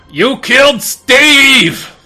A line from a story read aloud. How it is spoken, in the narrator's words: he's going to yell